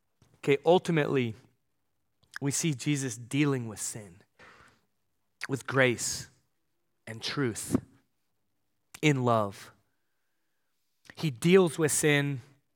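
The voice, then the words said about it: Choked-up, strained voice. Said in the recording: “I'm getting choked up. Losing my voice”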